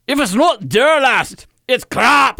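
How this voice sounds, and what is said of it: Put-on Scottish accent. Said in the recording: “How about Scottish? ... Oh, you do Scottish? ... I don't know if you remember the old Mike Myers from SNL.”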